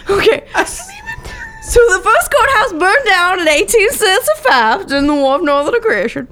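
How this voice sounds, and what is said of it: Put-on accent. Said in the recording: “I love this accent so much. I want it in my whole life.”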